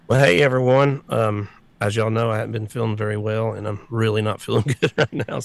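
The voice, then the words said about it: Very hoarse, failing voice. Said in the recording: “I know I'm hoarse. My voice is just about to go right now ... Just my voice is completely gone ... I'm struggling here just talking.”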